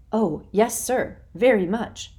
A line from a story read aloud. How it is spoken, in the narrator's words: cried Rainey, with as much enthusiasm as he could muster